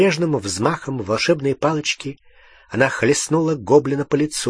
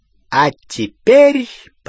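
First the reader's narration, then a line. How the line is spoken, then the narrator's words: Triumphant ringing proclamation. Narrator (Russian): победно звенящим голосом провозгласила она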